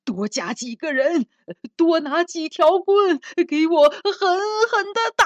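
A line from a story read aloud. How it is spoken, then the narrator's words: Furious yelling. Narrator (Chinese): 县官鼻子都气歪了，脸涨得通红，嚷道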